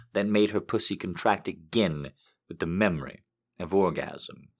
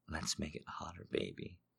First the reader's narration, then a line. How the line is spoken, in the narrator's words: she whispered